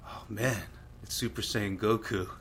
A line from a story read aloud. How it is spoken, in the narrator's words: muttering to myself